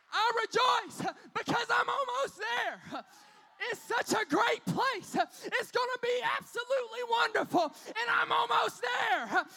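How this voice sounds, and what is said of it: Screaming, preaching delivery. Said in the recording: “I'm screaming and preaching”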